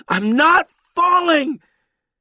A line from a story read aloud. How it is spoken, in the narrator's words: screamed loudly